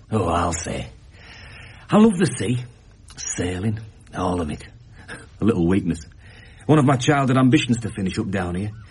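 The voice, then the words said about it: Northern English Leeds accent. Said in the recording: “Judging by that accent, you are not exactly local. ... That obvious, is it? I come from Leeds.”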